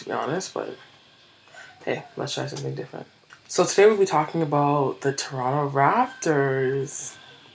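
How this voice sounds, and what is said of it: Whispering. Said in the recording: “I'm whispering,”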